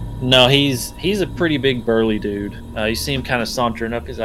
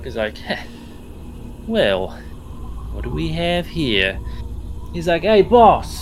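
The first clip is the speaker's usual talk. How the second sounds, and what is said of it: Bad guy character accent. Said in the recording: “there's that accent again. They're a bad guy. ... Bad guy speaking. ... It's a bad guy accent right there.”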